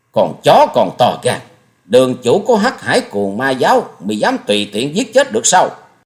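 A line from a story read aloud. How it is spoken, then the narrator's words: Angry snort. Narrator (Vietnamese): Hồng Trần Cuồng Sanh hừ lên một tiếng giận dữ nói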